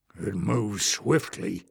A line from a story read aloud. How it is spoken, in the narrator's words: Glock growled